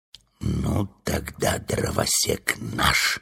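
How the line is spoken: Whispered. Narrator (Russian): прошептал Урфин

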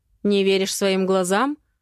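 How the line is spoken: Mother's angry smirk. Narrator (Russian): зло усмехается мама

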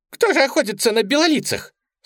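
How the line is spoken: Jackal's excited squeal. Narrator (Russian): с волнением провизжал шакал

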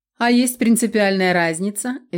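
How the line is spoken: Cheerful snort. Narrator (Russian): весело фыркнул Лариш

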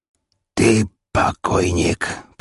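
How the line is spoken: Hoarse wheeze. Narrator (Russian): прохрипел, судя по всему, главарь бандитов

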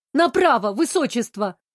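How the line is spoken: Barking again. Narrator (Russian): рявкнула я в очередной раз

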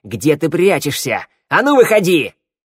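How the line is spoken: Barked. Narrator (Russian): рявкнула

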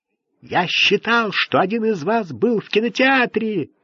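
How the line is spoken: Barking. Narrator (Russian): рявкнул Ролленбергер

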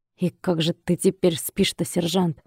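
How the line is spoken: Brief wry snort. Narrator (Russian): На секунду криво хмыкнул

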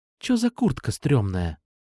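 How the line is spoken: Whisper. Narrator (Russian): шепнула Настя

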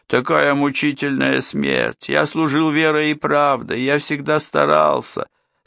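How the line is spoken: Whimpering. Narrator (Russian): Берия захныкал

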